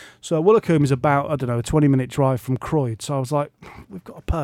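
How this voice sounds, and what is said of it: Usual voice. Nothing is said of it.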